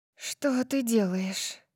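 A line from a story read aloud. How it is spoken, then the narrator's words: Anxious breathless exhale. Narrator (Russian): Выдохнула я в тревоге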